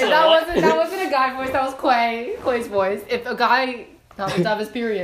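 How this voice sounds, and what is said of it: Usual voice. Nothing is said of it.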